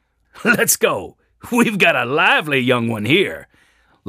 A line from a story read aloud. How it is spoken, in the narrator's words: laughed the man riding a chestnut mare